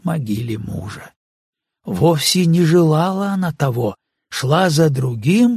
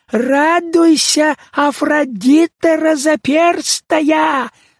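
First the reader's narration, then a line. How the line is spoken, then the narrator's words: Shouting, old yet childlike voice. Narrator (Russian): закричал он старчески детским голосом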